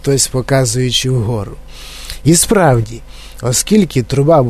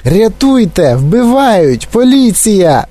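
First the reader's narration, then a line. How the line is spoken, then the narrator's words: Shrill scream. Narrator (Ukrainian): заверещала пані Глуп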